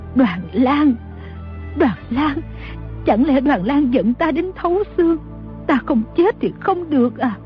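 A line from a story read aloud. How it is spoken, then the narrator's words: Trembling voice. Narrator (Vietnamese): Bà run rẩy nói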